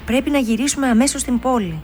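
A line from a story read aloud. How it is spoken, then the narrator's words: Shouted. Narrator (Greek): φώναξε ο μπαμπάς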